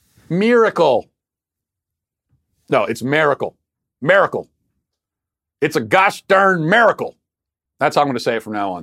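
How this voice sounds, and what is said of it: Baltimore accent. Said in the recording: “my Baltimore accent”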